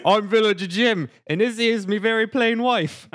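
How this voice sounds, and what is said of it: Bad put-on accent, shifting accents. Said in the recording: “Are we on Australia?... I didn't say it would be a good accent... Went through like five accents in one sentence.”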